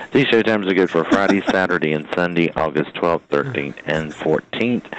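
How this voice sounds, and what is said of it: Hoarse, fading voice. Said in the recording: “Losing my voice. Gotta love allergies.”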